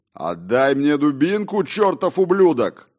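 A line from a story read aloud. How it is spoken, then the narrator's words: Furious yell. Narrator (Russian): яростно заорал мистер Петтибридж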